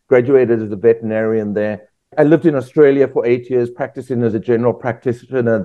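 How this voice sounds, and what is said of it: South African accent. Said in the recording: “your accent clearly isn't from Kentucky ... I'm from South Africa originally.”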